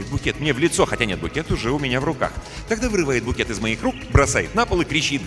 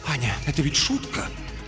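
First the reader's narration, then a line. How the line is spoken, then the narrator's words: Whisper. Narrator (Russian): он говорит шепотом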